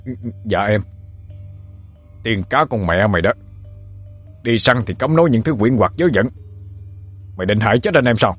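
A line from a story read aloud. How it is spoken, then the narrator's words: Trembling. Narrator (Vietnamese): Một người run run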